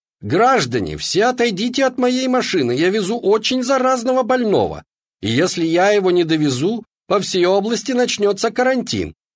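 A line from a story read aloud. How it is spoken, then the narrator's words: Shouted. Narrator (Russian): кричал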